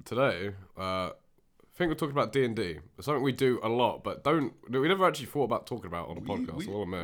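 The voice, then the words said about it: Raspy voice. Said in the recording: “if our voices are, I think, a bit raspy ... Raspy voices.”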